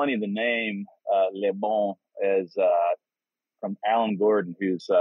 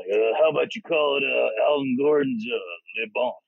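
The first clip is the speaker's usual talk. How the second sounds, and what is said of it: Imitates another person's voice. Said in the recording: “He talks to us like this. When you meet him, you'll be like, damn, that was a great impersonation... Good impression”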